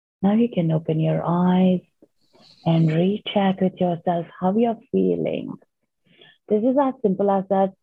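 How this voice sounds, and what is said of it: Slowed-down calm speech. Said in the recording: “my voice has slowed down”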